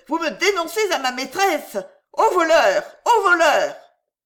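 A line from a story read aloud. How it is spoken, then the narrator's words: Shouted. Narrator (French): lui cria-t-elle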